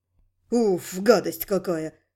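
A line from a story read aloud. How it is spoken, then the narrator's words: Startled exhale. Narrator (Russian): выдохнул от неожиданности тот, кого назвали Тармеса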